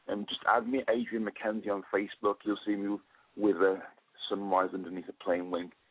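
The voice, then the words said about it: Speaks with a noticeable accent. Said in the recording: “I just love your accent.”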